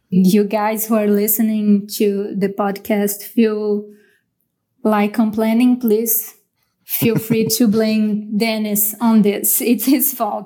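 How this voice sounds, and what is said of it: Heavy Brazilian accent in English. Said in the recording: “a conversation heavy on Brazilian accent and some mispronouncing”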